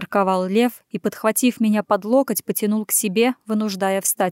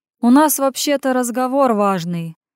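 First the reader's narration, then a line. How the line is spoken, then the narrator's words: Lazy drawl. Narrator (Russian): лениво растягивая слова, вмешался Сергей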